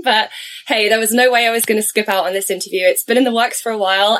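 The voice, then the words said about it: Raspy, hoarse voice. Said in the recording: “just recovering from a head cold that I had this week. So I've got a bit of a raspy voice going on, which is not ideal for podcasting”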